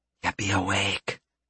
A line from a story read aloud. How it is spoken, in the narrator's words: Stacia whispered